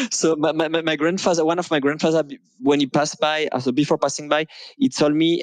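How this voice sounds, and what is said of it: French-Russian accent. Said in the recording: “your French Russian accent, I like it.”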